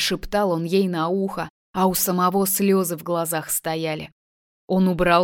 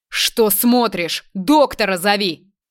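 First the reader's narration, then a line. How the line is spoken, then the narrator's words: Yelling. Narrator (Russian): Заорал он на молодую девушку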